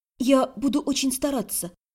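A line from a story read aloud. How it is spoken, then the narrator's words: Whisper. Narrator (Russian): прошептала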